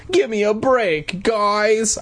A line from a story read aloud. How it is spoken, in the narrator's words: pleaded